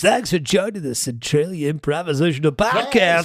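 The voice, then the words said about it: Put-on podcast host voice. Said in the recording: “I got to go into my podcast voice.”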